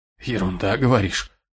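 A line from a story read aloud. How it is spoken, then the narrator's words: Hoarse, strained, coughing. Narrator (Russian): Хрипло выдавил злыдень и мучительно закашлялся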